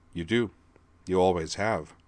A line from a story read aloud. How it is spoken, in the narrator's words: Griffin told her gently